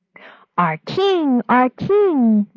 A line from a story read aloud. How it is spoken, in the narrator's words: the people cried